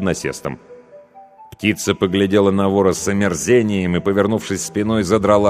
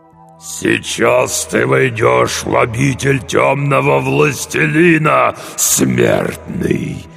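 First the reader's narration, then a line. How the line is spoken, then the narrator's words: Strained growl. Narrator (Russian): прорычал демон с натугой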